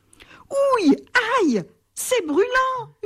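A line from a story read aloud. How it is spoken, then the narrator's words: Screaming in pain. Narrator (French): hurle-t-il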